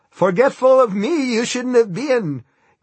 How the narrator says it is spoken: Guy screamed, sounding like Yoda in the Star Wars movies

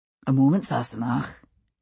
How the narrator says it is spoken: he said quietly

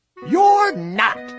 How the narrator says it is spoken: snapped the rabbit

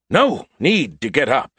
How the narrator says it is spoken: he shouted hastily

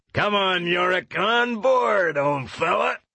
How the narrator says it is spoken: yelled Lee Scoresby

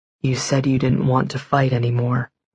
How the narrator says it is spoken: he murmured in my hair

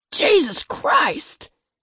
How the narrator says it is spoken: Matthew screeched

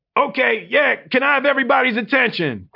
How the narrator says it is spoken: Quincy bellowed

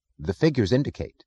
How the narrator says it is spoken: said Mr

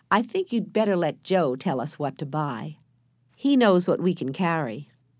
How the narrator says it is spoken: said Jesse kindly

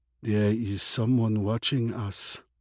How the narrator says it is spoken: murmured Iman

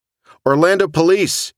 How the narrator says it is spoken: he shouted

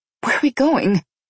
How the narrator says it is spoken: I gasped as I tried to keep up with his long stride

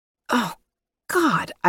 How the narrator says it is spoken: I gasped as he rocked into me

